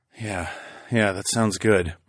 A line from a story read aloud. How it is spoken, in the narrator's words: I mumbled